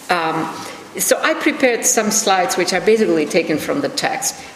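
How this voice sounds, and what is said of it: Foreign accent in English. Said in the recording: “I have a foreign accent in English”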